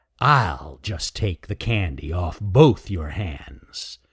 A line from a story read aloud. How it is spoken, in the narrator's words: snarled Raker